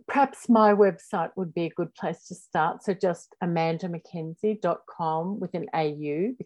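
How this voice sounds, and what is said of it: Australian accent. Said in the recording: “because I'm in Australia, if you can't already tell by my accent ... she's not from the States”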